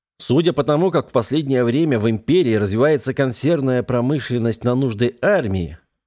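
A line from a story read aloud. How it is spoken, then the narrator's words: Plain. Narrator (Russian): ответил ему капитан-лейтенант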